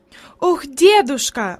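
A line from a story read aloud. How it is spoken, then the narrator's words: Exclaiming while on the move. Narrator (Russian): воскликнула она еще на ходу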